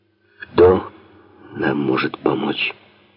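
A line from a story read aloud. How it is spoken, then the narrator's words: Quiet grief-filled question. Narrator (Russian): Генерал полной горести, тихо спрашивает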